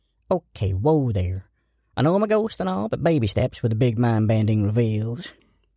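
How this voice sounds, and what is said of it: Ghost character with mixed accent. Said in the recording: “Excuse my accent, by the way. I've been all over.”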